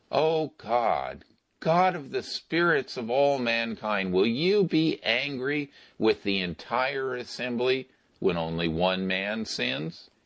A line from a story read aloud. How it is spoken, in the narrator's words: Moses and Aaron fell face down and cried